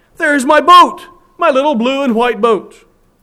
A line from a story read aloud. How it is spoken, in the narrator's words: cried